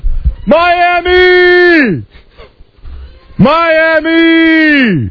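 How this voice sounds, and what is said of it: Shouted impression of an awards show. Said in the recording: “do my impression of the Video Music Awards”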